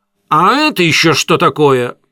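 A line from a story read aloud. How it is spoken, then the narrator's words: Sudden shrill exclamation. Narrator (Russian): Он вдруг воскликнул пронзительно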